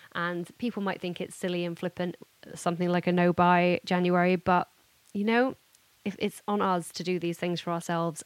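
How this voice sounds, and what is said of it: Hoarse, fading voice. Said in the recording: “I'm also losing my voice already. Can you tell? So bad.”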